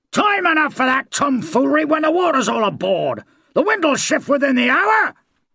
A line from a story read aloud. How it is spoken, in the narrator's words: roared the barrel-shaped captain, quite unabashed